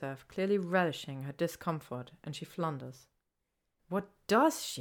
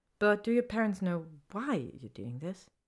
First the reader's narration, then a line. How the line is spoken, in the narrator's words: Draco sighs